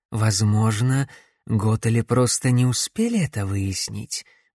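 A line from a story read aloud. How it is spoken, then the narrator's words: Muffled, woman. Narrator (Russian): глухо ответила женщина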